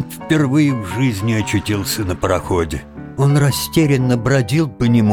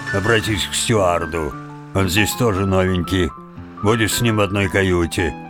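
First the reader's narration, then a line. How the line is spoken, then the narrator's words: Grumbled. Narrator (Russian): буркнул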